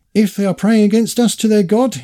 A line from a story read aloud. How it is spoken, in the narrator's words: exclaimed the ferocious heathen